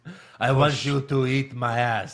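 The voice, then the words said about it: Triumph the Insult Comic Dog accent. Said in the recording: “The insult comic dog accent.”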